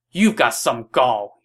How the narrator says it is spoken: he shouted

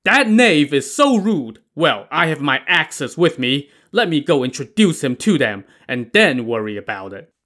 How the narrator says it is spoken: Li Kui jumped to his feet and shouted

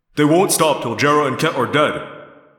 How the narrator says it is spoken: Jake said flatly

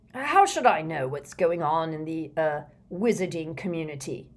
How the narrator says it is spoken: snapped the Prime Minister now

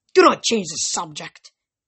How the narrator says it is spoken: Ghost growled

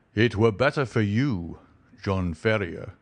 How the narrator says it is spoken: he thundered

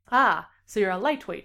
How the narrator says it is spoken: Shane says

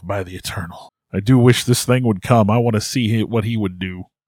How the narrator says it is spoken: whispers to himself

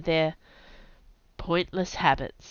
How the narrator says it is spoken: he sighed

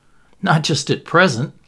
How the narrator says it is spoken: laughed Anthony

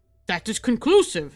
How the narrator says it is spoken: said the professor, glaring angrily

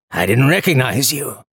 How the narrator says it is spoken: the man croaked

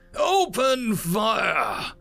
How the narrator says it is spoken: Legion roared out

